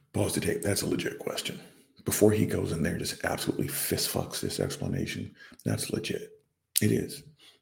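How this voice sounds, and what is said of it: Whispering. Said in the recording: “why am I whispering it? Because it's almost 3 o'clock in the morning.”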